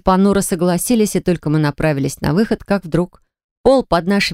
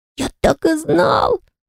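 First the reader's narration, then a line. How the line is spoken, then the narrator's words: Joyful whisper. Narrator (Russian): радостно прошептал Энтай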